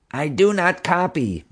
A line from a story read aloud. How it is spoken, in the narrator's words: Marge said desperately